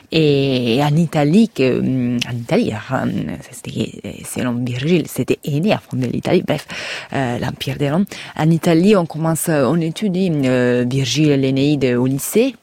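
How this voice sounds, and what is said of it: Slight Italian accent. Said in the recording (French): “je suis italien, comme mon petit accent le déclare”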